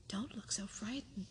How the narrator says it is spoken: he exclaimed

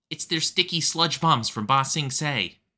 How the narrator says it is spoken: Smellerby shouted

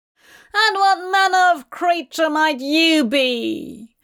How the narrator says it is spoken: boomed Roderick Burgess, his voice trembling with fury

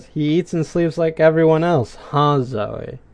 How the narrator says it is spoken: sarcastically says

